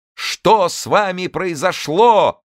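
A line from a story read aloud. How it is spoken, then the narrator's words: Crowd shouting, laughing. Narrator (Russian): громко кричали ему все люди, и все хохотали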